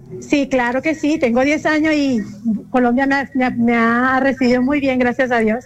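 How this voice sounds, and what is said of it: Venezuelan Spanish accent. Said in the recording (Spanish): “Tienes el acento por ahí, venezolano.”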